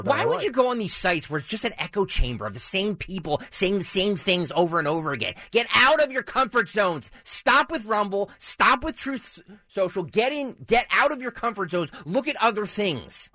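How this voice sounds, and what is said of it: Yelling. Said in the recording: “I'm yelling. ... Yes, you are. ... he's yelling.”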